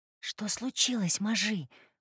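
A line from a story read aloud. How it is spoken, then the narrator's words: Whisper. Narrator (Russian): прошептала она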